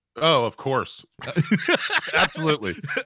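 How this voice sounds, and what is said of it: Sarcastic delivery. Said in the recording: “He's being sarcastic.”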